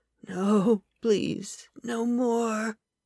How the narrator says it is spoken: Kyle muttered

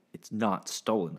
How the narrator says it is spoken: I snapped

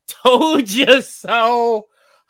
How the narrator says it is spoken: With the classic obnoxious laugh

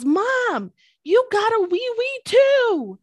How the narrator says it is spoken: he yells

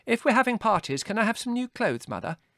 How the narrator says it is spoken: asked Margot eagerly

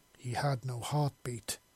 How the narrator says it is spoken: she said flatly

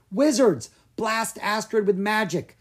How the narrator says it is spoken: Gianna yelled

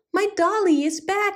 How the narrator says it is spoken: she cried, hugging her with joy

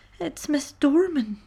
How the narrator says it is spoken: she sobbed

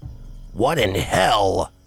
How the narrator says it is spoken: Scatsman snarled

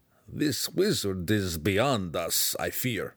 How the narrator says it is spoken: Belwar mumbled

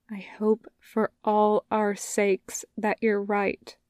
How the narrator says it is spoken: Ma Xichun says quietly

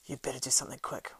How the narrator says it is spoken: whispered Strider in his ear

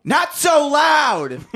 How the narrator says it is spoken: Frank yelled

